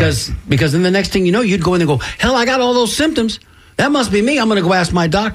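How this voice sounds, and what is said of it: Usual voice. Nothing is said of it.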